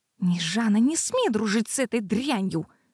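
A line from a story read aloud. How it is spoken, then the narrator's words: Hissing. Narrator (Russian): зашипела Аниша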